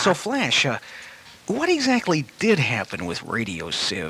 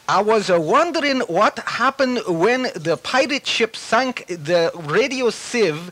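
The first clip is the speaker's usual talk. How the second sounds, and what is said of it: Poor attempt at British accent. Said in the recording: “That's a terrible imitation. ... I can't do a British accent.”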